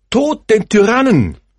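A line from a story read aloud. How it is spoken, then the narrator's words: Stranger calling out. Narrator (German): ruft der Fremde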